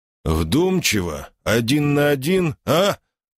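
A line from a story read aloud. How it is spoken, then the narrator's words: Growled reply. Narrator (Russian): рыкнул я в ответ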